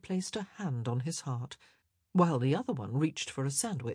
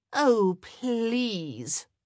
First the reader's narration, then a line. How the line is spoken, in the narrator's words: Eloise groaned